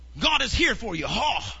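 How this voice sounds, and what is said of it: Exaggerated preachy voice with throaty huffs. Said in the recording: “do your God voice ... It's like you're hawking up something”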